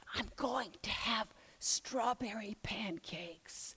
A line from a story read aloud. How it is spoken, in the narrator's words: she whispered excitedly